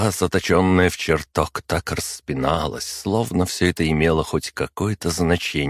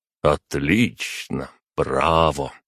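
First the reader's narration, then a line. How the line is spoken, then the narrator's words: Even more bored voice. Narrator (Russian): сказал я еще более скучным голосом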